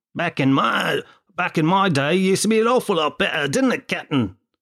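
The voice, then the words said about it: Put-on English accent. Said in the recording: “I don't know why I put on an English accent.”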